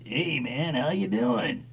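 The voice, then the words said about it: Old hippie guy voice. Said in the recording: “the old hippie guy with, like, the handlebar mustache and the white hair, and you know his voice is going to be like this”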